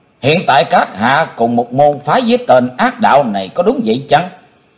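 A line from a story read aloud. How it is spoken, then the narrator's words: Stern voice. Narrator (Vietnamese): Chí Tôn nghiêm nghị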